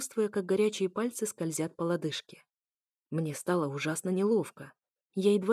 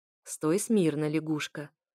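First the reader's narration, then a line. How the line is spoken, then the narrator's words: Mocking snort. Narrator (Russian): хмыкнул Эфир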